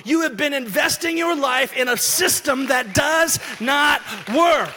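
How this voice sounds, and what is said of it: Yelling loudly. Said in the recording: “Why am I yelling?”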